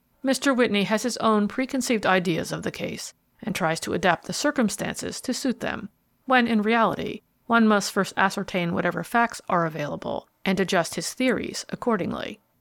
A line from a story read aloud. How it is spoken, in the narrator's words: replied gravely